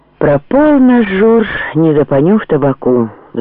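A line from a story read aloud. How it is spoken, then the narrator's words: Sighing. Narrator (Russian): вздохнул Борейко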